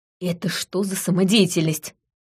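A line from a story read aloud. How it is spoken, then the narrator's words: Hissing. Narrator (Russian): прошипела я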